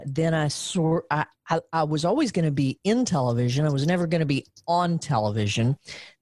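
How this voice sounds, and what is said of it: Noticeable regional accent. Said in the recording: “if you'd lose the accent we'd put you on the air ... obviously i've gotten some or a lot of that accent back”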